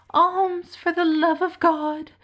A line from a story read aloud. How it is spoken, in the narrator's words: the miserable object cried